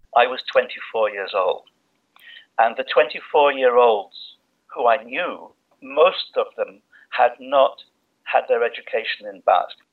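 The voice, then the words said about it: English accent. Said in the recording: “as you might guess from his accent, is English”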